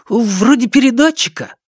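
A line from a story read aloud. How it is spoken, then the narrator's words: Exclaiming. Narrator (Russian): воскликнул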